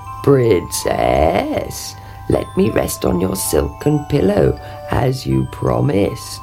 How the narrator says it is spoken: he croaked

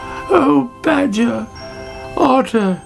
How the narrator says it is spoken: she cried

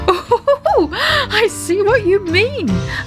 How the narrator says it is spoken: laughed Daddy Ted

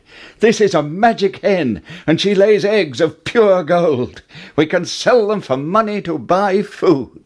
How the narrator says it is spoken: Jack cried

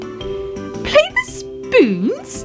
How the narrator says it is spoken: cried Fuzzy Ted

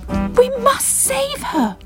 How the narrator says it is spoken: cried Bubble

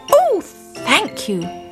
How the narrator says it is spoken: cried Simon

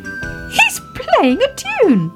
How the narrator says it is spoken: cried Baby Ted

